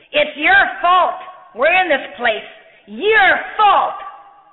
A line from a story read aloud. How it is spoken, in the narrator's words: they were shouting at him, saying